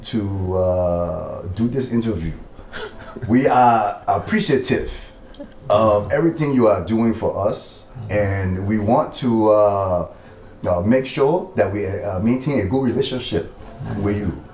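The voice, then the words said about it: Put-on Liberian English accent. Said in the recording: “in the Liberian accent ... So let me do the interview in the Liberian.”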